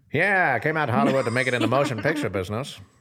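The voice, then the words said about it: Old-time radio announcer voice. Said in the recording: “radio voice on ... Your old-time radio voice ... that voice”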